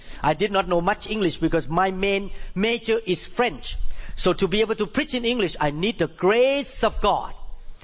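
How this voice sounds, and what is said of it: Non-native English accent. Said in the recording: “English is not my mother tongue language. And thank God that I have accent”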